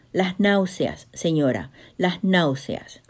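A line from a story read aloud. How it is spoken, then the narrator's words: Plain. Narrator (Spanish): respondió Juana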